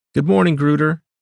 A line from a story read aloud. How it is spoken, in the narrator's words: called out, smiling